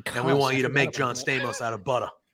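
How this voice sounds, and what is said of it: Put-on Boston accent. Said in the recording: “that's not the accent that you put on this dude ... throws that Boston accent”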